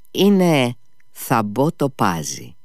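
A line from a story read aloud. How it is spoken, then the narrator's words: Smiling again. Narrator (Greek): χαμογέλασε και πάλι ο Νικολάη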